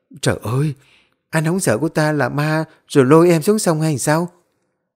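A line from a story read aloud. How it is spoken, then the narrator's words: Frightened trembling. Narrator (Vietnamese): Thu run rẩy hoảng sợ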